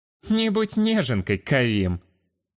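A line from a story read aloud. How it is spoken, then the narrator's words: Sarcastic snort. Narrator (Russian): Язвительно хмыкнул я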